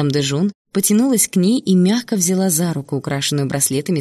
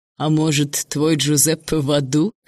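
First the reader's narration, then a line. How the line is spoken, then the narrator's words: Wry snort. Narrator (Russian): хмыкнул князь Салина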